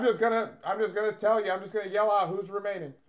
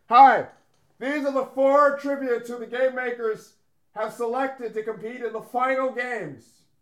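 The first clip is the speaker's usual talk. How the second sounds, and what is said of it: Yelling, loud announcement voice. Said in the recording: “Why are you yelling? ... You're getting louder. Why are you getting louder?”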